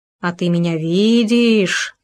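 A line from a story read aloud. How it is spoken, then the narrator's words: Sepulchral voice. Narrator (Russian): за могильным голосом продолжил еж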